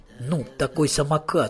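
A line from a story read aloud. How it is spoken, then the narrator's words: Plain. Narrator (Russian): сказала Даша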